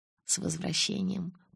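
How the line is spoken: Purring. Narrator (Russian): промурлыкал он

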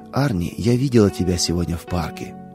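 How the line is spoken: Plain. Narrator (Russian): сказала мама

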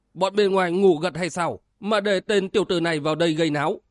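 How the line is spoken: Raised voice. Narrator (Vietnamese): Một tên cao giọng nói

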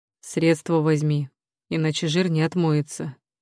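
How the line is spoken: Quiet. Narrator (Russian): негромко говорит Глеб

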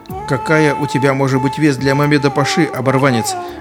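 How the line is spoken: Laughing. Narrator (Russian): рассмеялся начальник стражи

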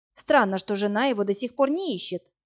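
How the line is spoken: Plain. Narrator (Russian): сказала я

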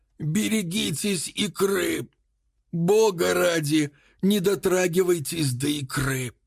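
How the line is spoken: Hoarse, rasping. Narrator (Russian): прохрипел он

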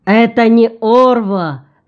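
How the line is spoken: Shout. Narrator (Russian): крикнул Гуват

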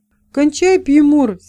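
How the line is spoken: Young apprentice, angry shout. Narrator (Russian): сердито крикнул молодой подмастерье

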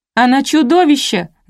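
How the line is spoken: Shrieking. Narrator (Russian): завопила Леся

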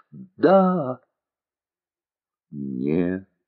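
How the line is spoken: Pleading questioning cry. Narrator (Russian): молящим голосом воскликнула вдаль, словно вопрошая

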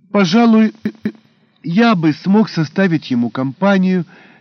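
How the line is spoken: Hoarse wheeze. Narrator (Russian): просипел Броницкий

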